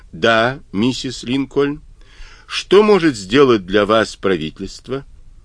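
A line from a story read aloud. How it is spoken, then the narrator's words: Calm question after pause. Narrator (Russian): После минутной паузы спокойно спросил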